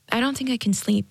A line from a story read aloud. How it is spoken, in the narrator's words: Jade said